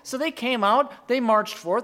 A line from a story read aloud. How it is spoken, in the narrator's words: they shouted